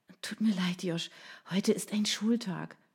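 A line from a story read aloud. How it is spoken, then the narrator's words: Sigh. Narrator (German): seufzte sie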